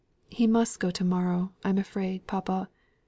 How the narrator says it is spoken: said she, tenderly

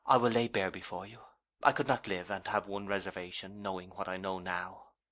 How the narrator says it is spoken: she said in a low, submissive, tender voice

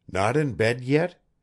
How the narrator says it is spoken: he exclaimed, with what sounded like annoyance

